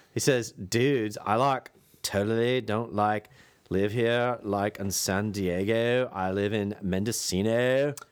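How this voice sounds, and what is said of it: Put-on Southern California accent. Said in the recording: “I have to, like, go into my Southern California accent”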